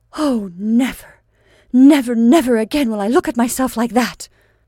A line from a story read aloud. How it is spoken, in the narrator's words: Rachel vowed fiercely